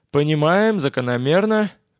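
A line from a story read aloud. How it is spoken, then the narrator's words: Sad sigh. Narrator (Russian): грустно вздохнул Боб Адамс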